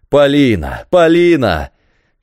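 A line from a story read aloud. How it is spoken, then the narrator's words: Dying man shouting. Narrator (Russian): кричал умирающий, бросаясь за нею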